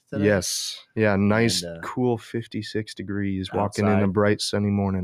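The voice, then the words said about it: Deep, sick-sounding voice. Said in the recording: “I've been a little bit sick the past couple days, so please pardon my deep voice.”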